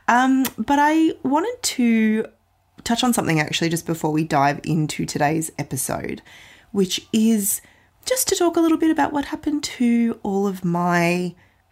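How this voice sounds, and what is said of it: Croaky, hoarse voice. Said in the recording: “I have got a very croaky, ... apologies for the slight croak and probably extra pauses for water today”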